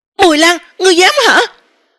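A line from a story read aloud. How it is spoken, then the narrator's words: Angry reproach. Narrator (Vietnamese): Tư Hồng Khuynh Yến ... ngoài miệng lại là tức giận trách cứ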